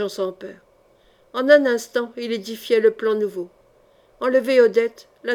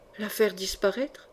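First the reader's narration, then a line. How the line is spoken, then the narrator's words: Fearless murmur. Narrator (French): murmura Jean sans peur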